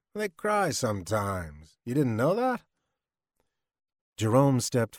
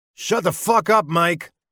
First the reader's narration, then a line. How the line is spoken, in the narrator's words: He barked